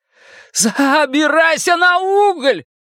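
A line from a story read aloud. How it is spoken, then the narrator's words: Shouting. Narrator (Russian): прокричал Билл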